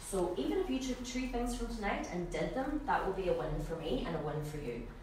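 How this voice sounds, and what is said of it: Strong Donegal Irish accent. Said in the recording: “this Donegal crazy person ... my accent is quite strong”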